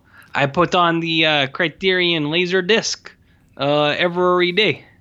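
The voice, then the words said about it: Put-on French-Canadian accent. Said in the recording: “doing a Denny Villeneuve voice ... I don't know how to do accents, so I'm going to do French-Canadian instead of Mexican.”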